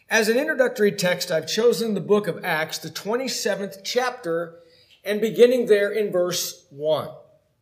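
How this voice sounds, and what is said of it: Hoarse voice. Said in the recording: “bear with my voice ... I woke up so hoarse today, but I hope I don't lose my voice”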